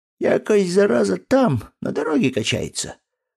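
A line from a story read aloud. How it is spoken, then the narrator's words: Wheeze. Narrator (Russian): прохрипел Грищенко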